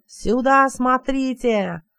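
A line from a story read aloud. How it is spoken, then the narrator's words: Yelled. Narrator (Russian): заорал с седла алькасар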